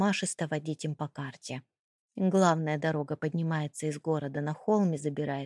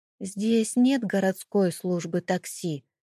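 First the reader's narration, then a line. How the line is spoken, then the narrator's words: Timid question. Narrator (Russian): робко спросил Маркус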